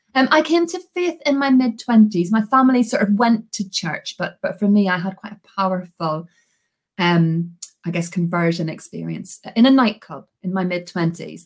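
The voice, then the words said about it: Slowed-down Belfast Northern Irish accent. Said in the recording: “I'm originally from Belfast in Northern Ireland. This is a very slowed down Belfast accent, because actually I talk so fast and it's so strong that people can't hear me.”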